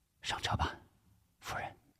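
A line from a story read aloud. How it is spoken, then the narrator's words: Soft. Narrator (Chinese): 吴石轻声说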